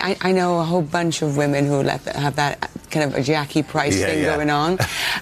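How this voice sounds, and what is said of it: Natural Welsh accent. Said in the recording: “your actual accent ... my natural Welsh way of speaking”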